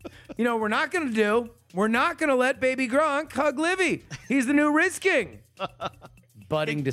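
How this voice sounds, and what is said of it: Usual voice. Nothing is said of it.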